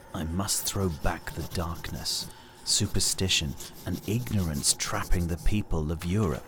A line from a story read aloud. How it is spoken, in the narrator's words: he muttered